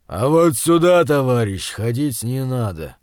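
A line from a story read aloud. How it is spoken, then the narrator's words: Calm giant's low bass. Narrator (Russian): невозмутимого вида высокий гигант, похожий на обезьяну, низким басом произнес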